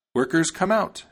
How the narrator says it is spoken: she cried

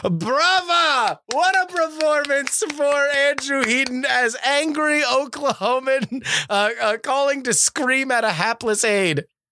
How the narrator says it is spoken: he is now red-faced screaming

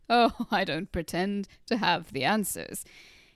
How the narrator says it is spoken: he said with an infuriatingly mild chuckle

